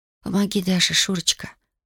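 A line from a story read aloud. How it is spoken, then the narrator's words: Pleading whisper. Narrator (Russian): прошептала Татьяна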